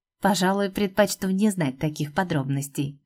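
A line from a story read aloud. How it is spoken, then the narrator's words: Dismissive with a snort. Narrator (Russian): открестился мужичок, хмыкнув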